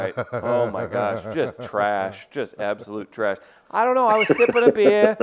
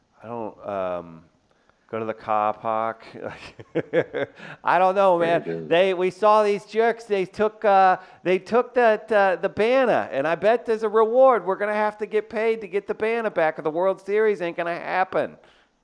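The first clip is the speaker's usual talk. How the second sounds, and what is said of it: Put-on Boston accent. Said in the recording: “you do your Boston accent”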